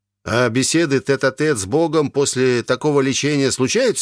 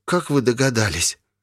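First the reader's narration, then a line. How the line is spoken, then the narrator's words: Frightened cowering whisper. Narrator (Russian): прошептал Волда, съежившись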